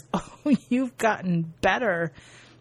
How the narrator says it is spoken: Sasha starts laughing, she says

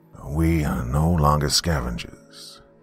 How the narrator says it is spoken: George said, his voice rumbling authoritatively

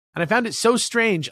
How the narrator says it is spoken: I exclaimed a very befuzzled

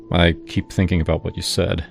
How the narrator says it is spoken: he murmured

